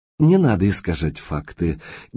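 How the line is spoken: Quiet, firm emphasis. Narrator (Russian): негромко, но с ощутимым нажимом произнес директор

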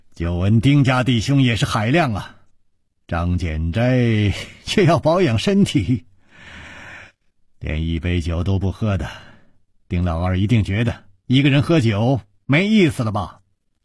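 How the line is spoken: Laughing. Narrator (Chinese): 楚留香笑道

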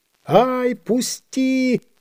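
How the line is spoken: Squeak. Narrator (Russian): запищал карась

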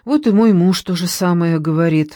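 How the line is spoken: Sighing. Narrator (Russian): вздохнула Надежда

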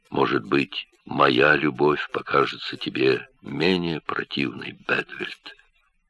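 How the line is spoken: Quiet. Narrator (Russian): он продолжал по-прежнему тихо

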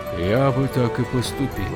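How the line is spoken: Gloomy. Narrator (Russian): мрачно ответил он

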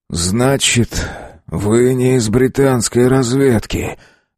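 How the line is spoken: Forced out. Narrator (Russian): Выдавил из себя он

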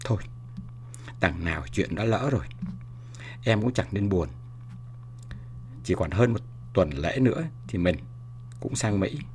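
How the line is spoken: Whisper. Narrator (Vietnamese): thì thầm

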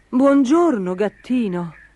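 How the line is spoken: Exclaiming. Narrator (Italian): esclamò il cavaliere

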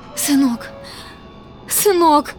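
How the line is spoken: Sobbing. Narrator (Russian): рыдала Итка

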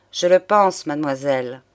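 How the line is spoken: Sad man's voice. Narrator (French): prononça le magistrat d'une voix triste

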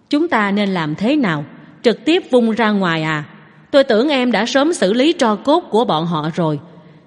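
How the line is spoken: Satisfied smiling question. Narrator (Vietnamese): Tống Duệ mỉm cười thỏa mãn, hỏi

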